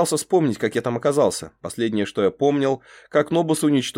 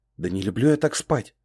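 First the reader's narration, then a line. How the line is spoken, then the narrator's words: Very quiet. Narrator (Russian): сказал я, но так тихо, что парень на корабле вряд ли меня слышал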